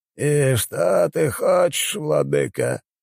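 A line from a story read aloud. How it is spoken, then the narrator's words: Flat colorless question. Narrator (Russian): бесцветным голосом спросил Атолл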